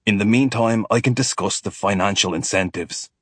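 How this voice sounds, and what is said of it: Character voice with foreign accent. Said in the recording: “There is an accent. Not Scottish, nor American.”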